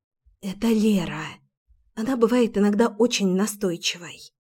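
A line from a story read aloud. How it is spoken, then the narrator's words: Whisper. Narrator (Russian): прошептала я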